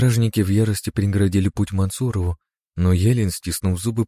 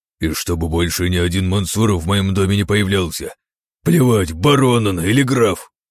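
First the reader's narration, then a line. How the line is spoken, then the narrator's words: Barked angrily. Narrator (Russian): рявкнул вслед Владимиру Елен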